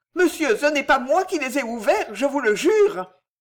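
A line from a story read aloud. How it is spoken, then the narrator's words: Old woman exclaiming. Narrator (French): s'écria la vieille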